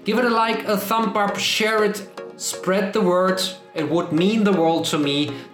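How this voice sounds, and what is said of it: Speaks with a foreign accent. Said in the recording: “make fun of my accent”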